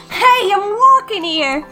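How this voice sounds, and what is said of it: Exaggerated New York accent. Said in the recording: “like a New York accent ... that was so bad ... Bad American accents”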